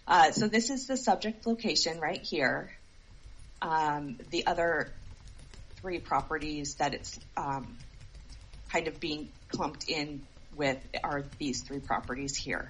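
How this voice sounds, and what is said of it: Hoarse, congested voice from a cold. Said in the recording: “I'm fighting this cold, so my voice is not great.”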